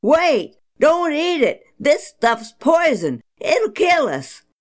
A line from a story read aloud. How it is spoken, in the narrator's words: suddenly they hollered